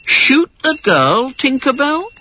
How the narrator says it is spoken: one of the boys said sleepily

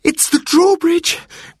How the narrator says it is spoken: cried Robert

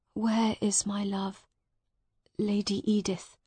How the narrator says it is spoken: Miles asked quietly

